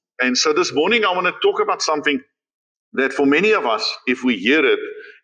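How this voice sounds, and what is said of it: Afrikaans-accented English. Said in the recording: “I hope you follow my Afrikaans. Through English ... Because of my accent being so quite clear to hear.”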